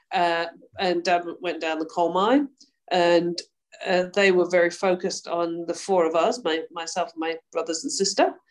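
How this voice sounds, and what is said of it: British Yorkshire accent. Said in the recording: “as we can tell by your accent, started on the other side of the world ... growing up in the UK ... I was brought up in Yorkshire”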